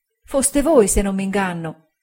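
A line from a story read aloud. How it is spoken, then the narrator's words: Voice choked with tears. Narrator (Italian): ella disse con voce soffocata dal pianto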